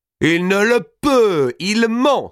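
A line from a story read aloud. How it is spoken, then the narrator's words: Crying out. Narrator (French): s'écria Mao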